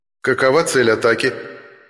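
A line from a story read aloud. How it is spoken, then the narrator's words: Businesslike tone, ghost. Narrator (Russian): деловым тоном поинтересовался призрак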